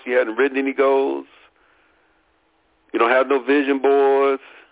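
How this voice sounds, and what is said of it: Imitates another person's voice. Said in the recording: “in my Suge Knight voice”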